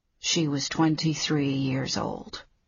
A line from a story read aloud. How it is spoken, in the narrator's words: Leo said softly